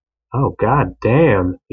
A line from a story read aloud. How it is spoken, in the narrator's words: he grunted out